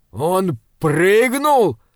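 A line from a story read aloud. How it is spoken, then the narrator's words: Shouted. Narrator (Russian): прокричал Крейклин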